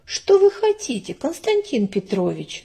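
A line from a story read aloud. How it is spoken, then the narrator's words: Plain question. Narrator (Russian): спросила она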